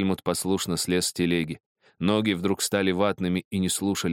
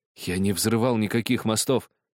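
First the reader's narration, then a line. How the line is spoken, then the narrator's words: Helpless stammer. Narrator (Russian): беспомощно пролепетал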